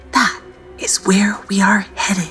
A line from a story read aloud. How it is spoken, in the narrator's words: whispered Mimic